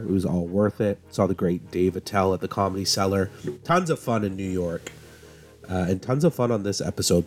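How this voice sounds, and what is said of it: Husky, under-the-weather voice. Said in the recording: “I'm a little under the weather. My sultry tones, my sexy voice right now.”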